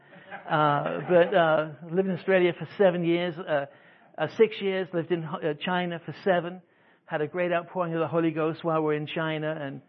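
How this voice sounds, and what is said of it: English accent, some Australian influence. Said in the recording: “I'm English, you know, by the way, in case you hadn't guessed... I've lived in Australia. That kind of messed up my accent.”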